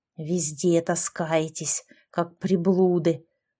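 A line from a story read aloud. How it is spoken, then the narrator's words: Hissed. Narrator (Russian): прошипела она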